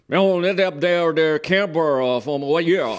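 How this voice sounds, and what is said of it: Imitated Eastern Virginia accent. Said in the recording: “this Eastern Virginia accent that I will not quite do justice to, ... I'll try to ... represent it”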